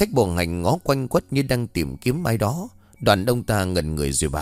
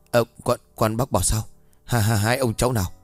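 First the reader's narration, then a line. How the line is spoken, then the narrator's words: Dumbfounded stammer. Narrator (Vietnamese): Ông bá tèo cứng họng khó khăn lắm mới lắp bắp nói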